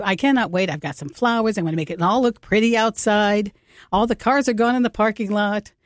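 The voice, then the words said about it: Slightly out of breath. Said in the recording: “A little out of breath.”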